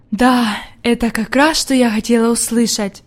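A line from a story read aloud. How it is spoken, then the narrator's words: Old woman whispering. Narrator (Russian): прошептала бабушка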